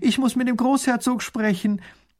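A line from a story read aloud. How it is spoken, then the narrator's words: Calling out. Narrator (German): ruft sie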